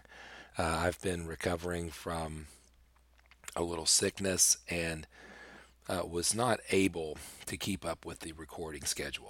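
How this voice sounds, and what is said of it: Weak, strained voice. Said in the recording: “my voice is not very strong... my voice just hasn't been strong enough to do an entire episode”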